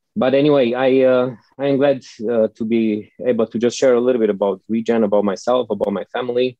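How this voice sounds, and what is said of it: Eastern European accent. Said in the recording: “my accent, you know, because usually people from the States love like a foreign accent or Eastern European accent.”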